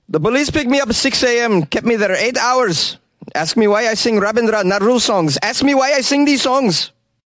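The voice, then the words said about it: Put-on Bangladeshi accent. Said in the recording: “attempt a Bangladeshi accent”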